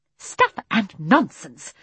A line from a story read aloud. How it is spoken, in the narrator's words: said Miss Lark crossly